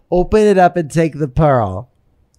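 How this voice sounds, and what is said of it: Put-on Massachusetts accent, slurred-sounding. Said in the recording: “You are so good at accents. So good. ... What kind of accent is that? That's a speech impediment. That's not an accent. ... it's like a Massachusetts. ... You just sound drunk.”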